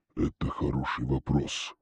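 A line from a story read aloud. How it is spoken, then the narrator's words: Serious voice. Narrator (Russian): серьезным голосом произнес покровитель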